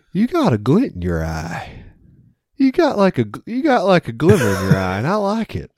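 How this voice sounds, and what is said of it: Imitated Appalachian accent. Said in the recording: “North Carolina Appalachian accent”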